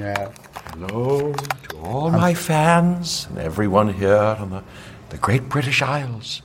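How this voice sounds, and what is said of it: Put-on British accent. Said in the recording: “That was good. Yeah, have you ever had to do a British accent?”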